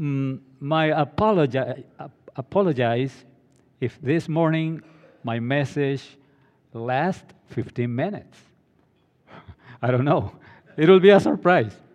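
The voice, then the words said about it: Hispanic accent. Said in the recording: “my Hispanic accent”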